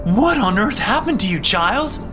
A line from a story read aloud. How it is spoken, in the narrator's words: Mom screamed